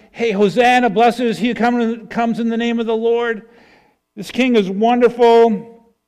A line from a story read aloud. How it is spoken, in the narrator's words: the throng that's yelling